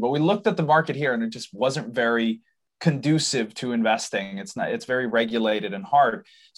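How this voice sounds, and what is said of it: American-influenced English accent. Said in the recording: “I apologize for my accent. That's my dad's fault. He's from the US.”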